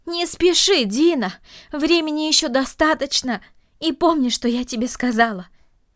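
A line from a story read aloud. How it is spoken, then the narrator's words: Calling after someone. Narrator (Russian): крикнула она ему вслед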